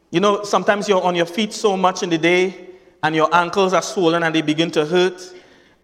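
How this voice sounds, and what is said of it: Trinidadian accent. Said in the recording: “my Trinidadian accent”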